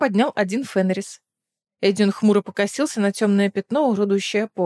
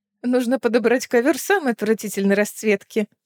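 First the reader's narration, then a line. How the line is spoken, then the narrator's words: Laughing. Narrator (Russian): засмеялась Лиссандра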